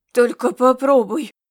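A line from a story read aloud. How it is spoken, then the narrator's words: Angry growl. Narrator (Russian): раздалось гневное рычание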